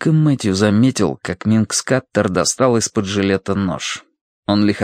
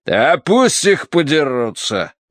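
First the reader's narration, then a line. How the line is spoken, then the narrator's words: Pleased snort. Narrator (Russian): довольно хмыкнул Смайт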